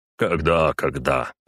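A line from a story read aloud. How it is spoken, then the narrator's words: Grumbling. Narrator (Russian): проворчал резвый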